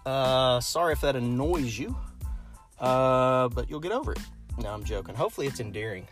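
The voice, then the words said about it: Kentucky accent. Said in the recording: “I'm from Lexington, Kentucky. So I'm sure you can hear it in my accent.”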